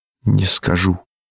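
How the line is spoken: Quiet answer. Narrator (Russian): ответил я тихо

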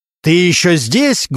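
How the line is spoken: Loud bark. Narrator (Russian): громко рявкнул Регинский

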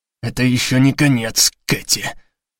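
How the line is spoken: Hissed. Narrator (Russian): прошипел Леви

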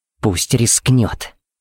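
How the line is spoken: Hissing. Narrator (Russian): прошипела Пепси

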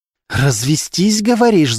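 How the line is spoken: Hissing. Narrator (Russian): зашипела Полина

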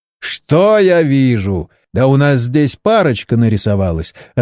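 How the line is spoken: Loud laughter. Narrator (Russian): расхохотался Борис

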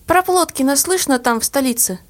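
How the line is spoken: Plain. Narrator (Russian): спросила одноклассница

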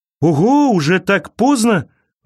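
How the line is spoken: Exclamation. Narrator (Russian): воскликнул он

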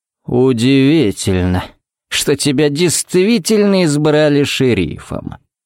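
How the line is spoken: Drawl. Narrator (Russian): протянул он

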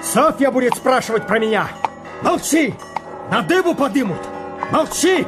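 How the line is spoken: Shouted through window. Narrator (Russian): Петр крикнул в окошко

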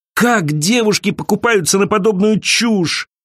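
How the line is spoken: Groaning. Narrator (Russian): простонала Элиза

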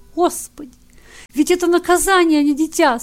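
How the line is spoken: Tearful mother. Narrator (Russian): сквозь слезы проговорила пришедшая в себя мать

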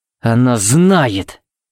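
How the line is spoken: Growling. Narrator (Russian): буквально прорычал Тикс

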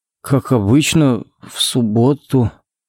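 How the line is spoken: Uncertain drawl. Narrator (Russian): неуверенно протянул Коннорс

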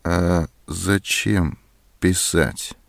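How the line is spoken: Cold. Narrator (Russian): холодно сказала Зоська

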